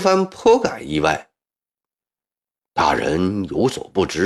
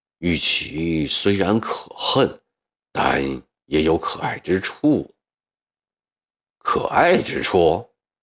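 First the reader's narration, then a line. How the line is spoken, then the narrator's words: Lowered voice. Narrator (Chinese): 压低声音说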